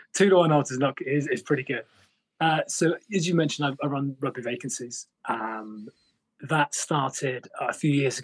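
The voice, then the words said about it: British accent. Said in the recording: “as you can tell from the accent, I'm not Canadian... I'm actually British”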